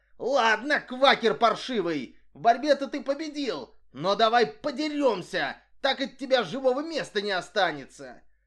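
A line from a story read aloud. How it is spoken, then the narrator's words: Furious yell. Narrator (Russian): Это привело Хоккота в настоящее бешенство, он заорал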